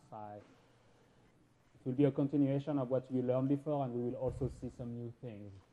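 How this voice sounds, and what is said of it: Slight French accent. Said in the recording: “you may get a little bit of an accent from me, and that's because I was born and raised in Paris”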